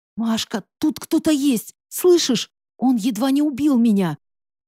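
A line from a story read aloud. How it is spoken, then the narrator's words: Urgent whisper. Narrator (Russian): Вместо того, чтобы кричать, я почему-то шептала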